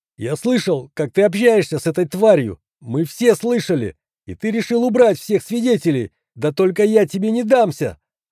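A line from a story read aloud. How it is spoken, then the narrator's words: Frightened shout. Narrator (Russian): Отползая от меня, выкрикнул медбрат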